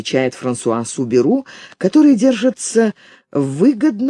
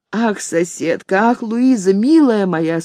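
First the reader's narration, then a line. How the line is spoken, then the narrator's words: Tearful exclamation. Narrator (Russian): сквозь слезы восклицает она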